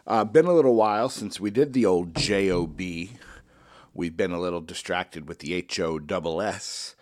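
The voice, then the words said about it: Congested, sniffly voice. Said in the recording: “As you could probably hear in my voice, I inevitably caught the cold ... Started feeling a little sniffly”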